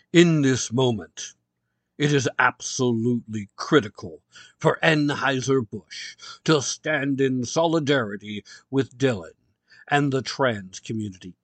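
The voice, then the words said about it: Serious formal reading voice. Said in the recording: “put on my serious reading voice”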